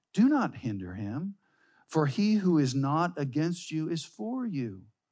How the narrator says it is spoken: Jesus responds to them, gently redirecting them, saying

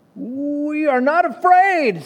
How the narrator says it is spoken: screamed Frog and Toad at the same time

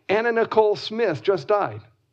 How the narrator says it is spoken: a nurse exclaimed

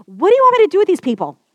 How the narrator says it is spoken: cried out to the people

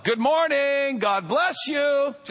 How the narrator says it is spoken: I hear him shout

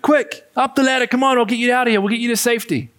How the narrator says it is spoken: a man yells from the helicopter

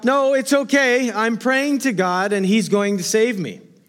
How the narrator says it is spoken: The stranded fellow shouted back from his rooftop

